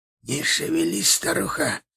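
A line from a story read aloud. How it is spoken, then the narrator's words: Hissing. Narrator (Russian): шипел чахотка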